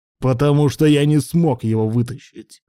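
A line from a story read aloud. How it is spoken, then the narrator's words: Shouted. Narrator (Russian): заорал Руслан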